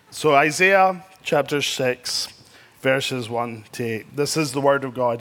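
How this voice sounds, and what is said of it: Strong non-local accent. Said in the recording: “I'm trying to slow down my accent, so if I do use a word you don't know, just roll with it.”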